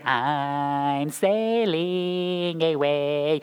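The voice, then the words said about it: Sung imitation in a nasal voice. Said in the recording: “You have Dennis DeYoung in the back of your brain. ... Why is he sound so nasally?”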